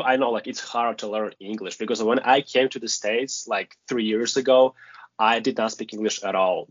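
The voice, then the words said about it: Non-native English accent. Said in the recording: “sometimes I know I have an accent, but I do my best.”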